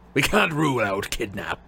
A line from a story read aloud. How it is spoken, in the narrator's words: growled Moody